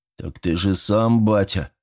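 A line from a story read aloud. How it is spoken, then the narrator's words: Confused deep bass. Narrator (Russian): растерянно пробасил сын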